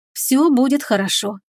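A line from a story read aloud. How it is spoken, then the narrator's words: Tender whisper. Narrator (Russian): зашептала она ласково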